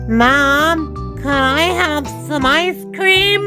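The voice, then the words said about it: Small child's voice. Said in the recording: “my impression of a small child who wants ice cream”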